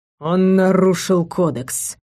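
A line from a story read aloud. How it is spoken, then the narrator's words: Dull, muffled reply. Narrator (Russian): глухо отозвался Мэддок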